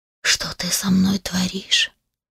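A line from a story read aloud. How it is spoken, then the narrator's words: Whisper. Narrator (Russian): прошептал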